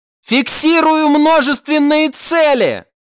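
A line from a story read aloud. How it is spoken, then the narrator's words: Crew member's sudden yell. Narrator (Russian): внезапно заорал один из членов команды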